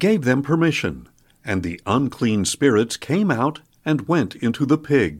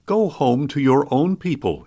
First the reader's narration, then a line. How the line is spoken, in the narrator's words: he said